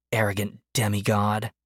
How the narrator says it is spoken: Behind him, he heard her mutter

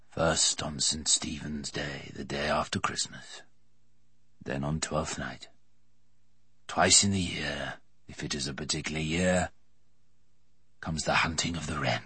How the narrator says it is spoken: Merriman said very softly

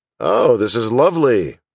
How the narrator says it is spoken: Daniel said sarcastically

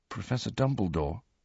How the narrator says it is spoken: Harry said very quietly, for Dumbledore, still staring at the pensieve, seemed completely lost in thought

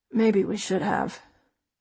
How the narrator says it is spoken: Dad says wearily

